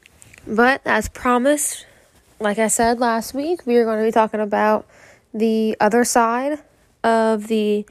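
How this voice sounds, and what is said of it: Raspy voice. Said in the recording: “sorry about my voice. It's kind of a little raspy right now. Got it over a little tiny cold.”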